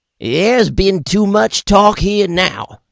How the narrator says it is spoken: yells Buck Hightower

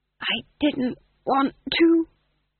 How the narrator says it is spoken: he hissed conspiratorially

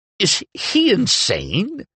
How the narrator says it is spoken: Adelis sputtered

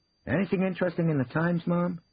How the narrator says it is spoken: saying, rather too quickly

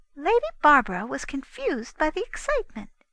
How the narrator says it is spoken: the Queen said calmly

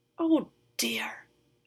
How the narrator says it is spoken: Anine muttered

